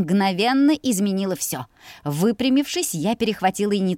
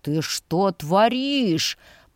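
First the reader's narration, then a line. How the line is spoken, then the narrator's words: Displeased hiss, brother. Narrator (Russian): прошипел недовольно брат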